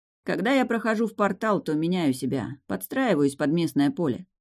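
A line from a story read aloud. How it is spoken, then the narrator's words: Dry explanation. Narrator (Russian): сухо пояснил Деян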